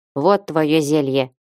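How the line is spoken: Gruff grumble. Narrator (Russian): буркнула Гримара

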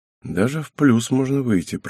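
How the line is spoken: Muttered under breath, man. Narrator (Russian): пробормотал себе под нос мужчина

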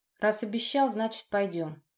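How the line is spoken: Wry snort. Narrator (Russian): хмыкнул я

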